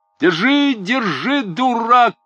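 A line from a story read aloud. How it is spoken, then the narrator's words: Shouting. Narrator (Russian): кричал Чичиков Селифану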